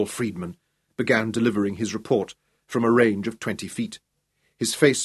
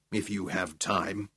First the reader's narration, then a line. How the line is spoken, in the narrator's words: he added under his breath